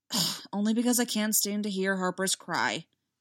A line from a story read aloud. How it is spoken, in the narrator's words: he muttered with mock roughness